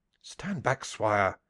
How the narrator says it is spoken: cried

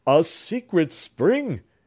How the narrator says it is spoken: cried Clifford

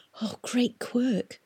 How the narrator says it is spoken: Tom whispered

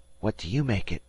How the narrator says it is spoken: Dan whispered

